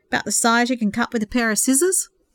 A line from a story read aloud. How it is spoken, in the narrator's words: Purity laughed